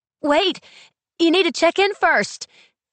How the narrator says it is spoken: she yells

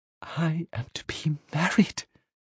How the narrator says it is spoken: Lydia leant in close and whispered

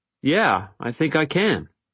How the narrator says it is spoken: I nervously told him

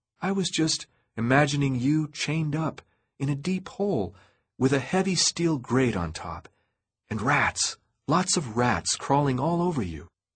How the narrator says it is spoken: answered in my nicest voice

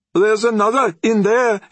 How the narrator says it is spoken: he yelled at Trent

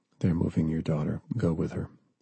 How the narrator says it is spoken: John whispered

